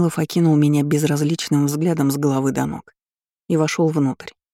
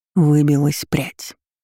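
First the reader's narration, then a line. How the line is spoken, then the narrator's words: Whisper in ear. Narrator (Russian): шепнул мне на ухо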